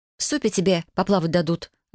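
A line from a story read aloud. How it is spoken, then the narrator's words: Snapping back. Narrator (Russian): огрызнулась я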